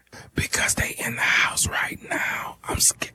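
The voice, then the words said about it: Whispering. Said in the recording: “why the hell are you whispering?”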